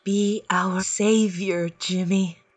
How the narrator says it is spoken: she whispers

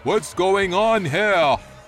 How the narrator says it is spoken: shouting in an authoritative voice

